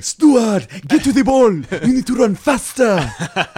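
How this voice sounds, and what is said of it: Shouted put-on Nigerian accent. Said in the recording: “he roared like a lion ... he would just yell back ... That's a great Nigerian accent.”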